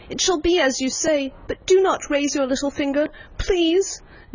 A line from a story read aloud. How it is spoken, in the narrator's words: he cried